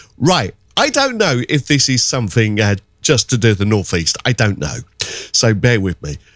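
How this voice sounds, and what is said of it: Usual voice. Nothing is said of it.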